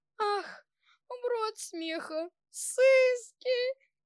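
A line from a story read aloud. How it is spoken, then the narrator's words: Groaning. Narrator (Russian): Мишка застонал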